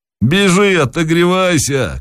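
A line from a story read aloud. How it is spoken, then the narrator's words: Shouted. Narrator (Russian): крикнул Захарыч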